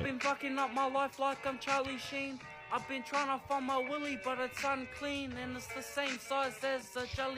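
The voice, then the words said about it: New Zealand accent. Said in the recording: “that accent is New Zealand”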